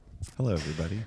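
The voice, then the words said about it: Put-on public radio announcer voice. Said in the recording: “This is my NPR voice.”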